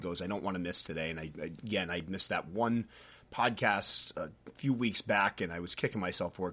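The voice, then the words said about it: Stuffy, congested voice from a cold. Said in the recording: “I'm feeling a little bit under the weather ... a cold ... feel a little stuffy ... I keep having to take time out to cough”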